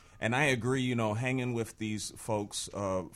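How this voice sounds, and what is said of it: Usual voice. Nothing is said of it.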